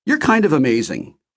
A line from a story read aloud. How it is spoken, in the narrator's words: I blurted out